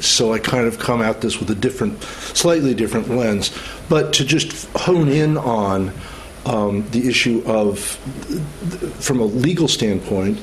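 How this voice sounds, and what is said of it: Non-British accent. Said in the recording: “as you can tell from my accent, I'm not from the UK”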